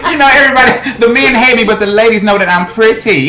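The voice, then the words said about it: Pimp character voice, Baby Magic. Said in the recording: “my character's called Baby Magic... I'll play this pimp kind of character... do a little impression, Baby Magic”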